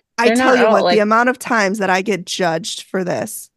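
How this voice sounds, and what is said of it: Sarcastic mock-complaining tone. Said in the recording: “I'm kidding. ... I'm being sarcastic.”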